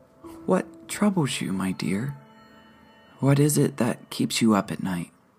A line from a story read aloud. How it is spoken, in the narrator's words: Her voice was soothing